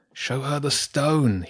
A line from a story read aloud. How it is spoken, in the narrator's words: whispered